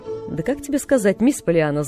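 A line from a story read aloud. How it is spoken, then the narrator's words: Laughing. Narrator (Russian): засмеялся мистер Пентон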